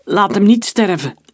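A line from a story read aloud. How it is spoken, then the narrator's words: Calling after someone. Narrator (Dutch): riep Emile hem na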